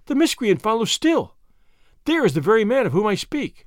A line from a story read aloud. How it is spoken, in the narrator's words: she cried